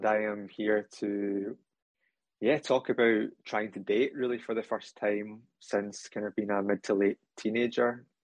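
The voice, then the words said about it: Scottish accent. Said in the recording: “in case you can't tell from the accent, I am from Scotland”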